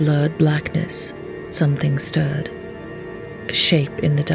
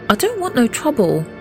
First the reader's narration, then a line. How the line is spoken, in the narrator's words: Jack pleaded with David